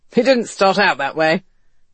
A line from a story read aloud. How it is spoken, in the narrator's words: West replied and laughed